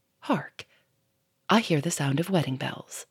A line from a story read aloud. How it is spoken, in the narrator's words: Lupin paused and said softly